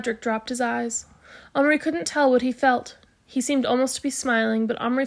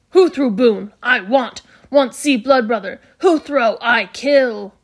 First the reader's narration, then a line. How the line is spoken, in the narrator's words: roared